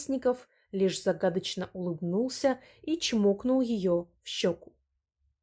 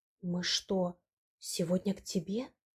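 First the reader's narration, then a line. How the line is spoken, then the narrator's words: Whispered in ear. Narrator (Russian): шепнула на ухо Рита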